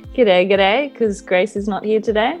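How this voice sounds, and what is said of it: Thick put-on Australian accent. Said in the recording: “I'm going to put on the real Aussie accent ... you got to like really thicken it up”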